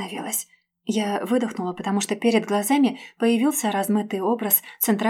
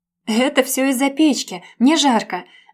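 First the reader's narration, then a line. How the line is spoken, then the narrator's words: Frantic exclamation. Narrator (Russian): воскликнула я, сходя внутри с ума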